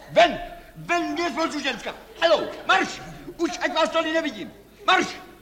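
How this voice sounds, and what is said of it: Shouting angrily. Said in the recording (Czech): “Nekřičte.”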